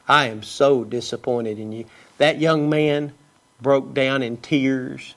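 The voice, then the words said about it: Stern, disappointed tone. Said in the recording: “That was exactly how I said it, in that tone of voice.”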